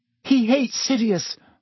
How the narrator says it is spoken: Hermione said desperately

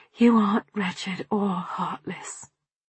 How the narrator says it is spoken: I said softly

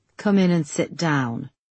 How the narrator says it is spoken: he said coldly

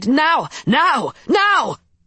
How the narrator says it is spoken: an enormous cry, as lookouts posted on the river shore shouted

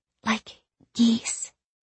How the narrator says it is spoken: she whispered

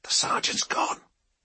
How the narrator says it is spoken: said in a hushed voice

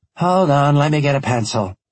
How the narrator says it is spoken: she said with a sigh

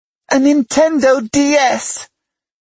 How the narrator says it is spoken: He squealed

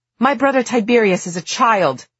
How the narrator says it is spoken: Mark shouted, suddenly livid

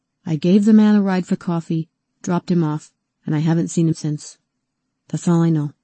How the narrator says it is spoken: he said, in a monotone

